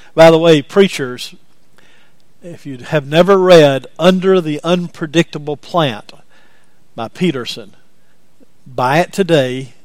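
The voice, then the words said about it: Speaker's own regional accent. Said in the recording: “I've got an accent, I know, but it's not that bad, is it?”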